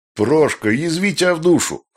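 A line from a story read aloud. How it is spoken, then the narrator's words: Laughing loudly. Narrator (Russian): хохотал Пшедерецкий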